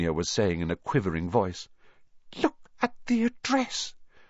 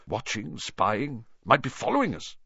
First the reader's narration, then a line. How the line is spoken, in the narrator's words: muttered Uncle Vernon, wildly